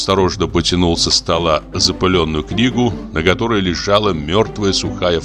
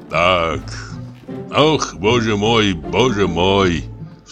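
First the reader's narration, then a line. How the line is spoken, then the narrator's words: Sighing. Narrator (Russian): вздохнул Самойленко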